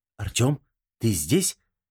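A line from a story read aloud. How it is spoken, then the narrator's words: Whispered call. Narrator (Russian): шепотом позвала она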